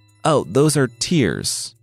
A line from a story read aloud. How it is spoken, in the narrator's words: Pigsy said